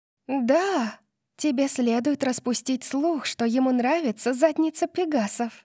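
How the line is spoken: Manic whisper. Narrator (Russian): прошептала София с маниакальным блеском в глазах

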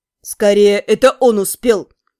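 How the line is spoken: Snort. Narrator (Russian): фыркнул мой друг

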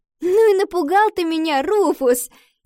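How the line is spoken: Girl's relieved laugh. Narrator (Russian): засмеялась девочка

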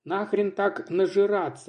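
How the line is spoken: Displeased mutter. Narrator (Russian): недовольно пробурчал Казаков

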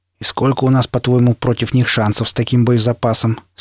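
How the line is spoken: Plain. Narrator (Russian): спросил пригоршня

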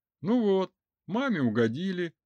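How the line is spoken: Joyful. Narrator (Russian): радостно сообщил Радив

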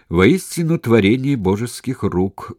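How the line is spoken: Loud. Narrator (Russian): громко сказал Перикл

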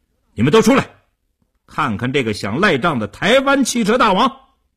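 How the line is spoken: Vicious raised shout. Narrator (Chinese): 叶成坚恶狠狠地，提高声音对里屋喊道

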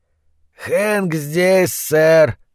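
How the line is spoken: Hoarse voice. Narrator (Russian): хрипло сказал он

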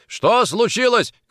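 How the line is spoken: Shouted. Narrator (Russian): крикнул Никитин

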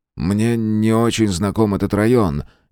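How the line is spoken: Uncertain. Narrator (Russian): неуверенно сказал

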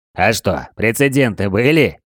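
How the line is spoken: Laughing question. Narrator (Russian): Смеясь, спросил Колян

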